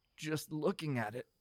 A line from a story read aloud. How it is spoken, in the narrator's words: Galen sputtered